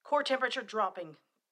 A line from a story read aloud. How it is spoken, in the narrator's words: Tally yelled